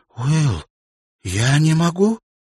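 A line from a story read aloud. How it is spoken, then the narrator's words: Exclamation with breaking voice. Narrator (Russian): воскликнула она дрогнувшим голосом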